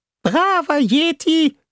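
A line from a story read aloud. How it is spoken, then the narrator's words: Squeaky helium voice. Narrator (German): sagte Fishboy in seiner piepsigen Heliumstimme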